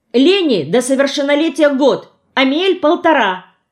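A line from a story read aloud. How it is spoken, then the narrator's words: Shouting. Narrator (Russian): крикнула я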